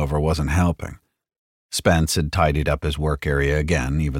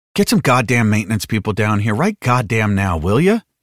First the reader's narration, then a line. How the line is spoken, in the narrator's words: Tully said testily